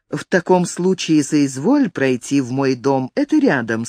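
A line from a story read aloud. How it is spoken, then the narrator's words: Plain. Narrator (Russian): сказал епископу Филипп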